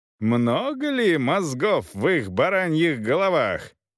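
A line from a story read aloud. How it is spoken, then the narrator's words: Loud, monk. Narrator (Russian): продолжал монах громко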